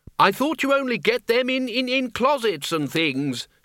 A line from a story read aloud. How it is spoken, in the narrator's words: shouted Ridcully